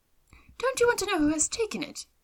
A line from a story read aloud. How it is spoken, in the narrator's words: cried his wife impatiently